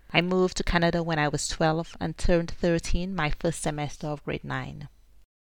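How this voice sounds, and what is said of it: Caribbean St. Lucian accent. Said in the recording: “I was born and raised in St. Lucia in the Caribbean. That's the rhythm you hear in my voice.”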